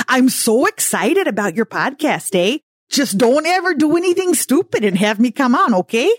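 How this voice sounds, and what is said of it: Put-on North Dakota accent. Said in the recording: “doing my North Dakota voice”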